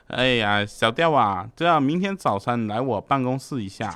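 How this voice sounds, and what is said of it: Put-on Hong Kong Tuen Mun accent. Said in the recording (Chinese): “操着那个香港屯门那边的口音就说”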